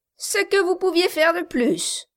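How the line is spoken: Sneering laugh. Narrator (French): dit Quilp en ricanant

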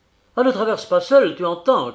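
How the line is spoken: Shouted. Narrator (French): cria Appleton Éclair, qui n'arrivait pas à le suivre

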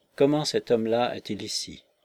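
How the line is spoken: Stunned murmur. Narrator (French): murmura-t-il stupéfait

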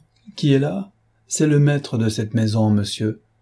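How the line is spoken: Harsh reply. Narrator (French): Cloarec, toujours oublieux de l'infirmité de ce jeune homme, trouva la question impertinente et lui répondit durement

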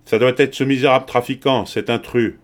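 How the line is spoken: Man exclaiming. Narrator (French): s'exclama le directeur

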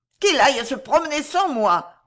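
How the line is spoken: Growled. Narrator (French): grogna-t-il

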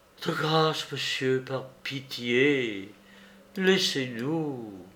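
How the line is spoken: Weak, pleading. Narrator (French): d'une voix faible et suppliante

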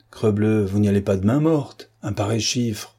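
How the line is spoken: Calm. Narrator (French): Géradec répondit calmement

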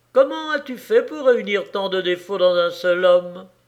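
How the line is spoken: Devilish sneering. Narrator (French): Le diable ricana

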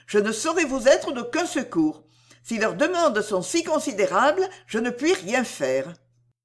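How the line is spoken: Exclaimed. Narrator (French): s'écria Cécile

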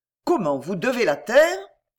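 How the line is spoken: Growing surprised exclamation, duke. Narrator (French): s'écria le duc dont la surprise allait augmentant

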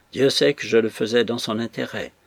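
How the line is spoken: Sad continuation. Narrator (French): reprit-il en secouant tristement la tête

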